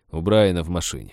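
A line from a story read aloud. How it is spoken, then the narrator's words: Disapproving grumble. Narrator (Russian): проворчал шериф, по-прежнему не одобряя эту идею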